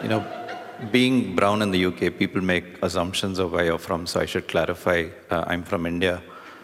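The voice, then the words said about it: Indian accent. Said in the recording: “You might recognize my accent from your bank's customer support”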